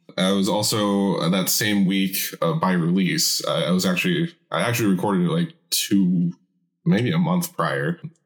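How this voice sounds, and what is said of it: Deeper, gravelly voice. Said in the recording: “I've been sick this week ... I'm kind of still ill. That's why my voice is more deep and gravelly than usual.”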